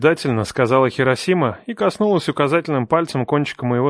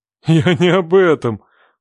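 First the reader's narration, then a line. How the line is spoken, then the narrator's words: Father laughing over phone. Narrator (Russian): засмеялся ее батя на том конце провода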